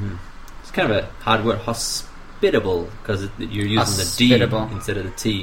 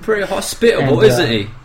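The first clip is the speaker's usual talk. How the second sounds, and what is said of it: Put-on British Cockney-like accent. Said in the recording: “Invented British English of mine ... That sounds like Cockney to me.”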